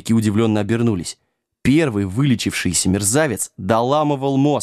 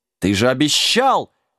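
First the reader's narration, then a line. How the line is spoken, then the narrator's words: Indignant roaring old man. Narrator (Russian): возмущенно взревел старый волшебник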